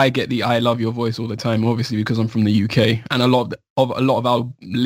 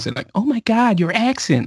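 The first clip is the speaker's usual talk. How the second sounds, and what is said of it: British speaker slipping into American accent. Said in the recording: “you slipped into the American accent. ... that was nice. ... region neutral”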